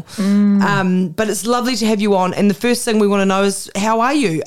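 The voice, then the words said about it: Strong New Zealand accent. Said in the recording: “Do you know how great it is to hear the accent? ... you guys are like strong in the accent ... I got to live in beautiful New Zealand ... I'm deeply in love with a New Zealander, but and my kids are Kiwis”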